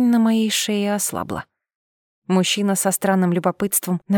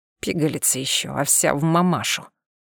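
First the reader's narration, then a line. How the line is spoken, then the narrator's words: Exhaled. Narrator (Russian): Выдохнул ушастый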